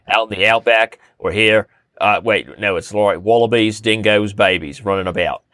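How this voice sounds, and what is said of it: Put-on Australian accent, elongated syllables. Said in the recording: “Like an Australian accent, you elongate the syllable.”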